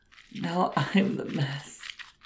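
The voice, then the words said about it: Emotional voice, close to tears. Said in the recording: “I'm getting emotional again. I'll have to go faster, or I'll start crying.”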